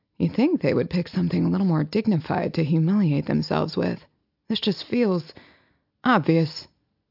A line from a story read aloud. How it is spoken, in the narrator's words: muttering